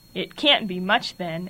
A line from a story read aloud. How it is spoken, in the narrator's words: added Steve with a sneer